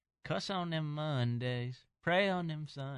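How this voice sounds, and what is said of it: Sung line in put-on accent. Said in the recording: “Don't do accents. Don't sing.”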